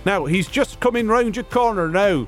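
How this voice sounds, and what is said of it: Imitates another person's voice, badly. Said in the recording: “The world's worst BTK impression from me”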